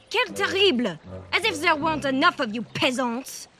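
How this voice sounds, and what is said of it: Fake posh foreign accent. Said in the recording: “enough of that fake accent.”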